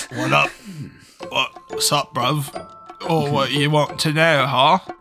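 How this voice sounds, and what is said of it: Attempted British accent. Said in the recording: “I don't know how to do a British accent.”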